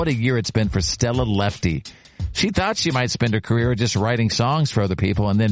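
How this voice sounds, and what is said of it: Usual voice. Nothing is said of it.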